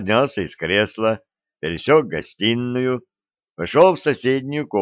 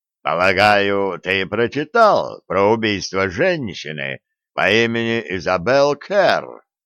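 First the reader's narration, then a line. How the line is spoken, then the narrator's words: Booming voice in ear. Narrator (Russian): Голос Вулфа прогудел мне в ухо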